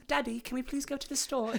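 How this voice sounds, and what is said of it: Tiny little British girl voice. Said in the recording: “she sounds like the little girl from Mary Poppins ... she has this tiny little British voice”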